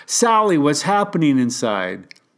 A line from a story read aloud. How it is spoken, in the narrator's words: I yelled at her